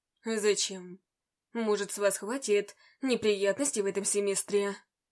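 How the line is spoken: Tired question. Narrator (Russian): Устало спросил

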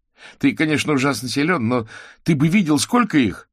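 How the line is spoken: Exclamation. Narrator (Russian): воскликнул Кузя

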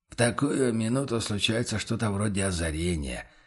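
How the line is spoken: Quiet remark. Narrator (Russian): тихо заметил помощник

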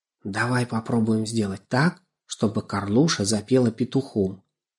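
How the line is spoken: Secretive whisper. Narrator (Russian): чтобы ворона не расслышала, что они затевают, прошептал

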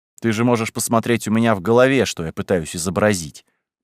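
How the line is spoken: Condescending grumble. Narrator (Russian): проворчал снисходительно

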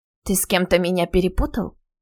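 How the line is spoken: Wry snort. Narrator (Russian): Она хмыкнула

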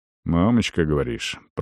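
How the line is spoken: Muttering. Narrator (Russian): пробормотал Арон

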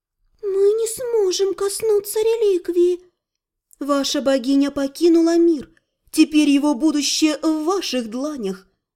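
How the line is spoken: Gentle reminder. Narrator (Russian): мягко напомнила сомневающейся красавице Мирей

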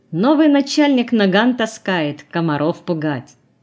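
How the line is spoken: Mocking addition. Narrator (Russian): насмешливо добавил

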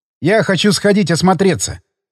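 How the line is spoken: Plain. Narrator (Russian): сказал я ей

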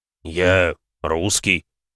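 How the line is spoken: Strained, forced out. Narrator (Russian): выдавил бык

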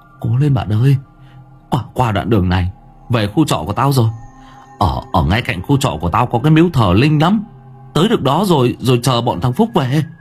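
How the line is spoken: Speaking over howling wind. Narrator (Vietnamese): Thuận nói trong tiếng gió rít

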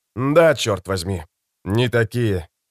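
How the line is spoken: Sighing. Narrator (Russian): вздохнул Родригес

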